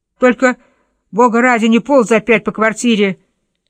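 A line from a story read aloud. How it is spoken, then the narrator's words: Yelling. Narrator (Russian): вопил Варфоломей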